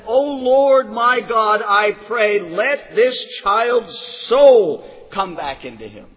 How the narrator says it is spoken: he cried out and said

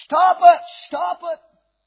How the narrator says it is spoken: in his dream, he cried out in his nightmare

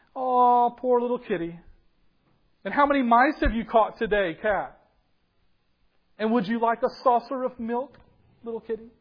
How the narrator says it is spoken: jeering at him, saying things like

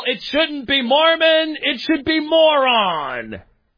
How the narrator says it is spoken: yell

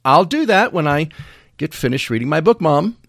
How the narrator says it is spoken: say, very cheerfully

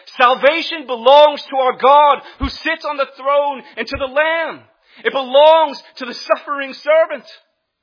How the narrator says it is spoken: They're crying out and shouting with a loud voice

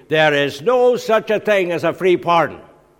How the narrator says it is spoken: he was shouting down the line to me

